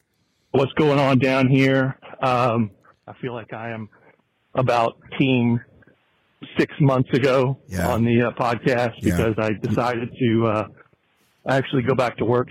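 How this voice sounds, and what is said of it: Slightly out of breath. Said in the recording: “I might be a little out of breath. I'm on my Brian Beckner hot girl walk.”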